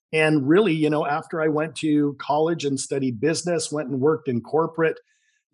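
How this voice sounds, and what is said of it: Slight Canadian accent. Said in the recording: “You might detect a little bit of a Canadian”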